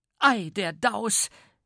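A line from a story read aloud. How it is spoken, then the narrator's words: Stout woman exclaiming. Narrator (German): rief die dicke Minna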